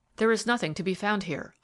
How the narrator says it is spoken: I said somewhat impatiently

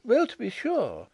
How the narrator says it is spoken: exclaimed Miss Chubb

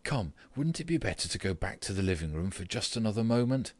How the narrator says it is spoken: said, although in a trembling voice and too quickly

